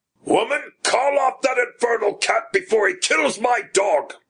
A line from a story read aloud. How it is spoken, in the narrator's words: he shouted above the din of yelps and yowls